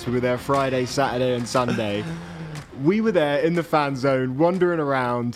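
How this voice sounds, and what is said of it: Hoarse, worn-out voice. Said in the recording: “I feel like I've lost my voice.”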